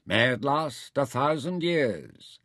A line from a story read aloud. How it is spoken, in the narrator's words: Naja intoned